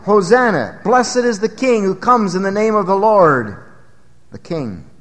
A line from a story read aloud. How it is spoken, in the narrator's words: the multitude shouted